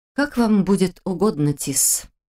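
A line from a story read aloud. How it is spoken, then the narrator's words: Husky reply. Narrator (Russian): ответила хрипловатым голосом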